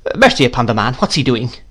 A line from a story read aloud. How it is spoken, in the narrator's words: cried my aunt impatiently